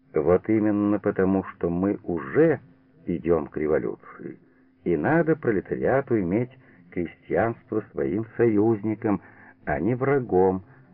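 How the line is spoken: Calm objection. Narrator (Russian): спокойно возразил Лебедев

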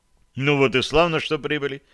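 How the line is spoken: Pleased tone. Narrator (Russian): я среагировал на новость довольным тоном

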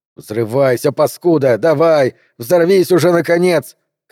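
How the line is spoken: Furious shouting. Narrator (Russian): кричал Гарднер вне себя от злости

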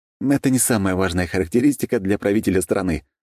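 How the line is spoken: Laughing. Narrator (Russian): рассмеялся я

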